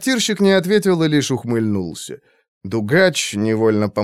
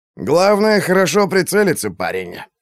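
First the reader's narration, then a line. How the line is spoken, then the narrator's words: Snort. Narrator (Russian): хмыкнул Дугач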